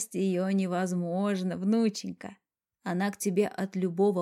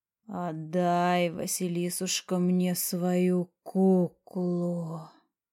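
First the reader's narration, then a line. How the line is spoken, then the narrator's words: Old woman's deep low voice. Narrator (Russian): сказала глубоким низким голосом старуха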